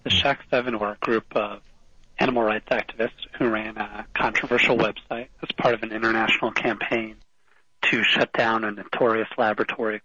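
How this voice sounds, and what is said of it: Hoarse, strained voice. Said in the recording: “I apologize if I'm losing my voice.”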